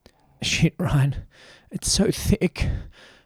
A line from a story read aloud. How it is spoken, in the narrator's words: Max gasped, his words landing with each of Ryan's thrusts